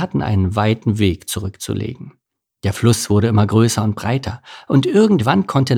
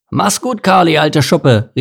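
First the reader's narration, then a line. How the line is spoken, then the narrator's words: Cheerful call. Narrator (German): rief Anton fröhlich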